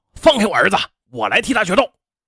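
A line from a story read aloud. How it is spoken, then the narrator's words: Loud roar. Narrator (Chinese): 王宝平大声吼道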